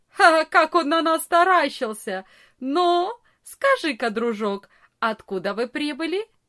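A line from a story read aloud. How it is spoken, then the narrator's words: Loud laughing boy. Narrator (Russian): самый большой из ребят громко не засмеялся и не сказал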